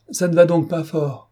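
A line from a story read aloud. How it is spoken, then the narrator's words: Shouting. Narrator (French): cria-t-il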